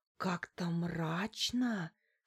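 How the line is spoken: Secretive whisper. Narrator (Russian): шепнула мне Лариса так, чтобы муж не услышал

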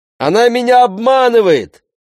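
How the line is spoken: Shout from above. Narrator (Russian): крикнул сверху Сесар

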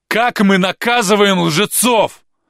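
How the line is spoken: Furious straining shout. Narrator (Russian): Гарин кричал так, что на шее и на лбу вздулись вены

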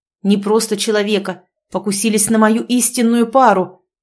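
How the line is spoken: Growl into phone. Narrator (Russian): прорычал в трубку

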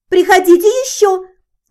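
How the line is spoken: Belated shout, saleswoman. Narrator (Russian): запоздало прокричала продавщица

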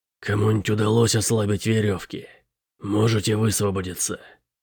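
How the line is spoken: Hoarse question. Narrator (Russian): хрипло спросил Шип

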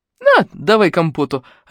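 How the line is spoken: Joyful. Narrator (Russian): радостно сказал Мик

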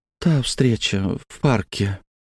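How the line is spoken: Heavy sigh. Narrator (Russian): тяжело вздохнула Сойон

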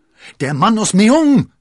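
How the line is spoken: Called out. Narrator (German): rief D'Artagnan

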